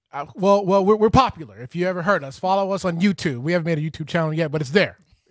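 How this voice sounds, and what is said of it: Loud, aggressive yelling delivery. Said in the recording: “Why are you yelling at her? ... You're being very aggressive.”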